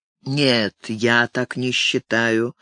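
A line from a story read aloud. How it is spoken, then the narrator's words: Dull voice. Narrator (Russian): тусклым голосом произнес Ник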